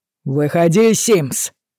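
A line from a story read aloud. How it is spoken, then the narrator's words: Yelled. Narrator (Russian): заорал Форбс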